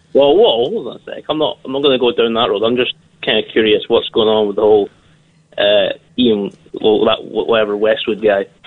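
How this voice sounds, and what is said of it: Scottish accent, muffled sound. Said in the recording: “that is a Scottish accent... you're sounding very muffled”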